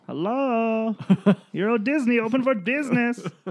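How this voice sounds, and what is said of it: Unidentifiable mock foreign accent. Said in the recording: “That wasn't a French accent. ... I don't know what that accent was.”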